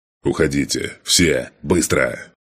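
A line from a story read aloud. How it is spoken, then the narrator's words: Roaring command. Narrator (Russian): проревел я своим бойцам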